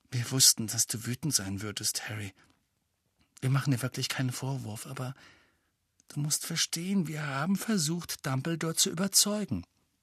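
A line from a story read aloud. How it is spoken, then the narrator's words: Quiet speech. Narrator (German): Hermine sagte leise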